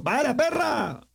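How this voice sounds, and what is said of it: Shouted Ibagué Colombian accent. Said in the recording (Spanish): “con ese acento ibaguereño”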